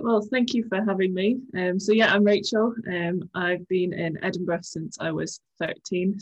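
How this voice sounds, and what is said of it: Mixed British and Irish accent. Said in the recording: “slightly confusing accent, which doesn't really pick one point”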